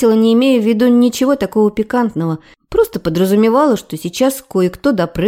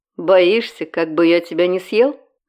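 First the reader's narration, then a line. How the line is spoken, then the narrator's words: Snorting. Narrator (Russian): Хмыкнул он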